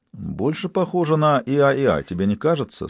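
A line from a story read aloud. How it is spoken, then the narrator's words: Plain. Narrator (Russian): спросил Гамаш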